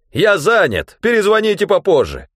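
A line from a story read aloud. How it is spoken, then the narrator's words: Barked. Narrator (Russian): Я рявкнул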